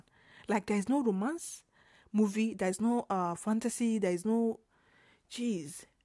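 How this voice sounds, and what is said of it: Nigerian English accent. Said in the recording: “our accent, like the Nigerian accent that I'm using now, I'm not trying to sound like all those American. I'm not trying to sound like, oh, posh”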